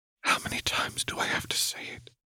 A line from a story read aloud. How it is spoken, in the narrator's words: Seraphine whispered back